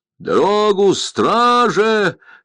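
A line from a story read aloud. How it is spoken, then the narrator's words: Shouted from a crowd. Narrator (Russian): закричали в толпе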